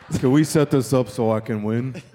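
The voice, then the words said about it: Imitates another person's voice. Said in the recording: “That's a really good impression.”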